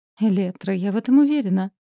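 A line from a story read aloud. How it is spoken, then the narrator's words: Joyful exclamation. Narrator (Russian): радостно воскликнула миссис Монтемайер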